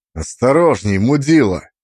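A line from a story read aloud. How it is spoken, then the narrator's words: Barked. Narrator (Russian): рявкнул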